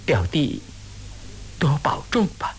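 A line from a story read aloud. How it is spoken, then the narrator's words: Sighing, soft, sad. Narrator (Chinese): 金凤姑低垂了头，心知吴思道对自己怨恚不解，只是叹息了一声，轻声地说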